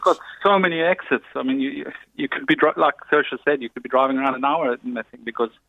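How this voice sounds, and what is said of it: South African accent. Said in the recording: “a very nice accent. People who try to do the South African accent always wind up speaking Australian. ... You get mistaken quite a bit for Australian or New Zealand. ... It's a much nicer accent.”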